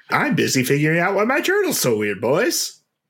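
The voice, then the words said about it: Jiminy Cricket impression. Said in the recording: “is that a good Jiminy, by the way? ... Kinda.”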